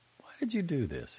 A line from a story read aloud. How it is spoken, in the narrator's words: he asked softly